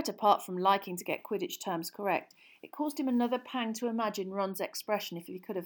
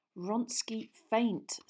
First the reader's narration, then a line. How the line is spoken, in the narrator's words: said Harry through gritted teeth